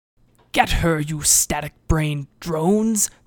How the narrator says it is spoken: Seyet bellowed

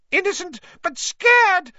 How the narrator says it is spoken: squealed Pettigrew

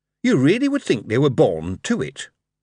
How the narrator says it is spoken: Simnel was silent for a moment, then said, in a careful kind of voice

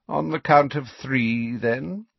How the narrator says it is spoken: said Snape lazily

